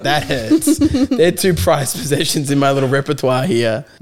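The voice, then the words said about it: British accent. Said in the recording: “my British accent.”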